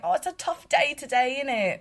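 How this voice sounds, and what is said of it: Put-on British accent. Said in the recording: “I love doing my little British accent”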